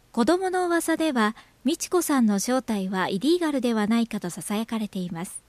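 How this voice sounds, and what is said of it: News announcer style reading. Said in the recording (Japanese): “ニュースっぽくじゃない？ ... ちょっとニュースっぽさがあったね ... いますの辺がね、うん、ちょっとニュースっぽかったな”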